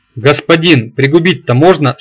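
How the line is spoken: Anguished shout, big man. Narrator (Russian): страдальчески крикнул здоровяк

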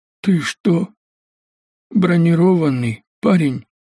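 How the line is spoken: Strained breathless wounded man. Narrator (Russian): С трудом выдохнул раненый охранник

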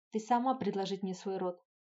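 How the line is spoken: Growled. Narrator (Russian): рыкнул Норк

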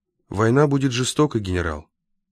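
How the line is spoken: Plain. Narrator (Russian): сказал Рультабий

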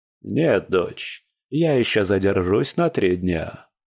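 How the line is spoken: Plain. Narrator (Russian): ответил

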